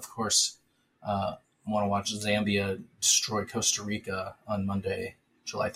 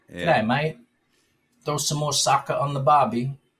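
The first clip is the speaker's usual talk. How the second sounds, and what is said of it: Poor attempt at Australian accent. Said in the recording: “That's such a terrible Australian accent.”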